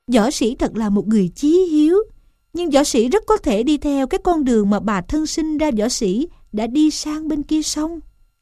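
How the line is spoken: Smiling. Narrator (Vietnamese): Gián mỉm cười mà rằng

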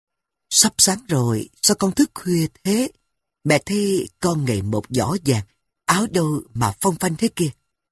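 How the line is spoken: Soft question. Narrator (Vietnamese): Phu nhân khẽ hỏi

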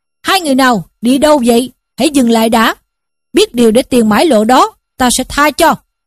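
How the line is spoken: Shouted threat. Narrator (Vietnamese): Trong bọn đó có hai tay hảo hán, mỗi người cầm một thanh đao quát lên

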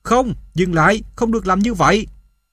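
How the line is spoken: Urgent shout. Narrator (Vietnamese): Không chút suy nghĩ, tôi hét lên

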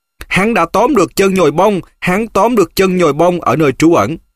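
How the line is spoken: Screaming. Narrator (Vietnamese): Nó gào lên

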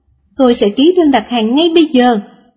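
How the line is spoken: Young woman, smiling. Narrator (Vietnamese): Cô gái trẻ mỉm cười và nói

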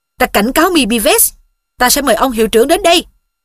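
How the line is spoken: Shouting. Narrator (Vietnamese): Giáo sư quát tiếp

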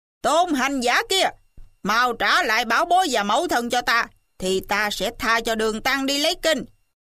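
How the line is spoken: Loud shout. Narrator (Vietnamese): Mà em lớn tiếng quát

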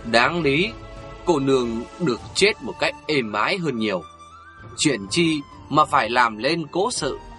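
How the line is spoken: Old man, slow steady voice. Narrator (Vietnamese): Lão già áo vàng lắc đầu, vẫn bằng một giọng từ từ cố hữu

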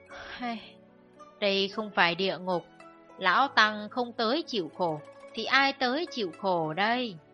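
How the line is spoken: Old monk sighing. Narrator (Vietnamese): Hòa thượng già lại thở dài bảo

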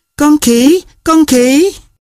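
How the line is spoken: Cry through laughter. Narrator (Vietnamese): Một ai đó kêu lên vì không nín được cười

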